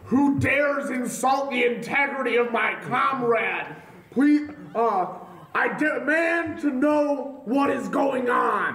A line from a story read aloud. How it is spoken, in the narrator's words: I shout out